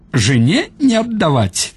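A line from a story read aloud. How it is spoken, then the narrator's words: Old man, laughing. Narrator (Russian): сказал старик и засмеялся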